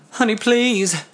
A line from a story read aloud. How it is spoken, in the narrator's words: begged